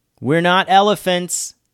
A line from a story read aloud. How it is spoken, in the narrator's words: Samaya said loudly